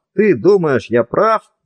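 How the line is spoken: Calling after someone. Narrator (Russian): крикнул ей вслед Барни

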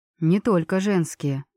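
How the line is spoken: Soft clarification. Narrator (Russian): мягко уточнил Кассиан

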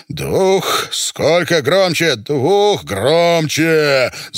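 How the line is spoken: Furious roar from behind. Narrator (Russian): Зарычал сзади Гога Пирамидин

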